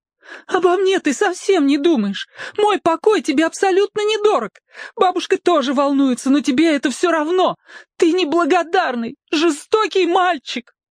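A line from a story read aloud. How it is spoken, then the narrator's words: Mother shouting, then plaintive. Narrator (Russian): закричала мама еще громче, чем Петька, и вдруг заговорила жалобным голосом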